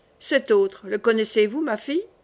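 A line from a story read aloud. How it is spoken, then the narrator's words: Plain. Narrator (French): dit Catherine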